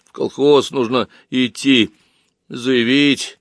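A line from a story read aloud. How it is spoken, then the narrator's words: Dejected voice. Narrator (Russian): упавшим голосом ответил человек без нервов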